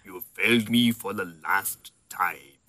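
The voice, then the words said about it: Darth Vader impression, British-tinged. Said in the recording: “Doesn't James Earl Jones play Darth Vader with a British accent? ... That's British. ... He just sounds like Darth Vader.”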